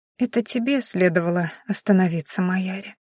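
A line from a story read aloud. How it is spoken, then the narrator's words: Soft rustling voice. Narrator (Russian): тихо прошелестел ее голос по комнате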